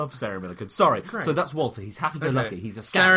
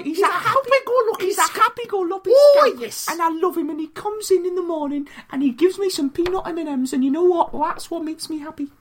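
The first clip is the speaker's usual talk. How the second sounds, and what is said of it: Imitates another person's voice. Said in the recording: “my Sarah Milliken impression.”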